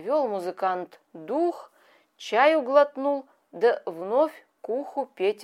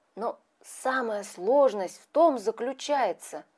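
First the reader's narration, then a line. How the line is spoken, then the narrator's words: Desperate strained whisper. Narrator (Russian): с надрывом отчаянным продолжал он свой шепот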